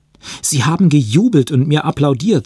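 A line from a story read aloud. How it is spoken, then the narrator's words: Excited. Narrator (German): sagte aufgeregt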